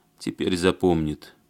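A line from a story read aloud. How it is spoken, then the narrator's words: Grim promise. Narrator (Russian): мрачно пообещал Барышев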